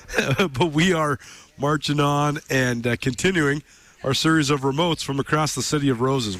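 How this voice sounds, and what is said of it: Rough, congested-sounding voice. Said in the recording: “Sorry I sound so terrible. I acquired some sort of a head cold here.”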